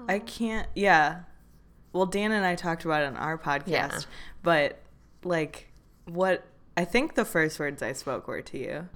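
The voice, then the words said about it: Tired-sounding voice. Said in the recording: “we are tired. ... I sound like a tired person.”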